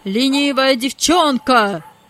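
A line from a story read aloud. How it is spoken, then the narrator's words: Master shouting. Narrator (Russian): закричал хозяин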